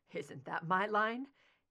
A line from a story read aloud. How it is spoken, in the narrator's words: He asked, forcing a watery chuckle